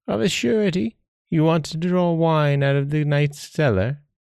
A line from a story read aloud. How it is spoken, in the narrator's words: the old woman said very kindly